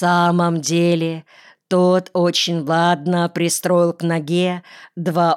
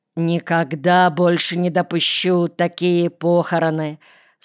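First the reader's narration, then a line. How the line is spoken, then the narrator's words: Plain. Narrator (Russian): сказал Гаврилов Хачатуряну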